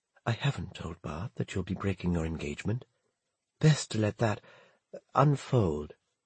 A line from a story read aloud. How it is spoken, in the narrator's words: She whispered